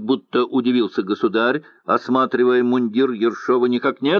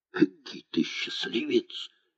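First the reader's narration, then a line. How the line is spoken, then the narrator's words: Whispered. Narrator (Russian): шептал командир полка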